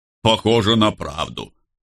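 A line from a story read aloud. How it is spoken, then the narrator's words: Deep bass voice. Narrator (Russian): пробасил Карл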